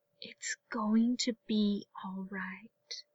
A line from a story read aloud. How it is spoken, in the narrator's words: Ahsoka whispered